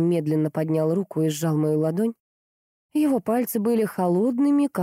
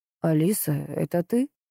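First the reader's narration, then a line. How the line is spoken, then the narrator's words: Uncertain. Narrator (Russian): неуверенно произнес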